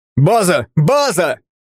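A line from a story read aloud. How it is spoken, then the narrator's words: Yelled. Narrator (Russian): заорал другой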